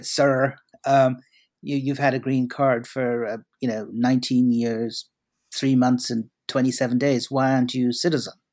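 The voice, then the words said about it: Attempted American accent. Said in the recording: “I can't do the American accent, but I'll try.”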